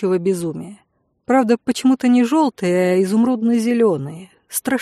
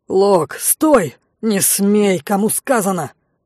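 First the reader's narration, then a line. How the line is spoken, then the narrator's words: Loud bark. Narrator (Russian): гаркнул Илой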